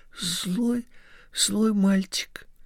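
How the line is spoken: Whispering. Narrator (Russian): Коля зашептал

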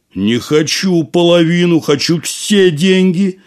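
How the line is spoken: Shouting. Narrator (Russian): закричал Касим

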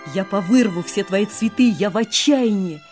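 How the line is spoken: Shouting. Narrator (Russian): закричала

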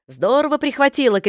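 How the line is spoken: Shouts from behind. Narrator (Russian): кричали сзади

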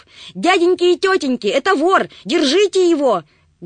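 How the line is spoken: Loud scream. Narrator (Russian): громко закричала она

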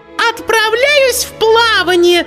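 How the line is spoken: Shout. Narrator (Russian): закричала штопальная игла

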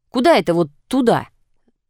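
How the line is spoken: Displeased question. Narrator (Russian): Недовольным тоном спросил Андрей

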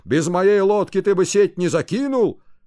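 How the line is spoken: Increasingly loud shouting. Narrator (Russian): Рыбаки кричали все сильнее

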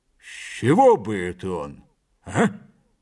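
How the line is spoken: Gentle, smiling. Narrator (Russian): добавил с мягкой улыбкой

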